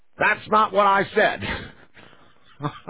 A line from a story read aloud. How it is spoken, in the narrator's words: the man shouted